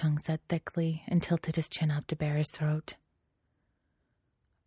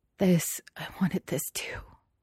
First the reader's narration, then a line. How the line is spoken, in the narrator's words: Xie Lian whispered and then laughed